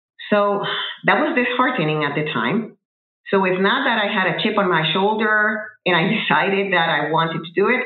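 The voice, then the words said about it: Speaker's own accent. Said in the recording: “I was not going to conceal my accent. I carry it with pride ... I probably should work on my accent”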